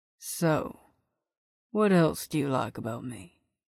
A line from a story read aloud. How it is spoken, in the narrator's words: he murmured